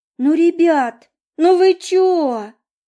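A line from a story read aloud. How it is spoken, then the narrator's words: Whining woman. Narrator (Russian): захныкала блондинка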